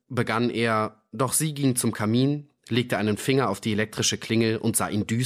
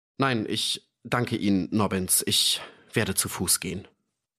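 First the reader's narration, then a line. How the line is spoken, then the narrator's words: Trembling voice. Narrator (German): sagte Ferdi mit zitternder Stimme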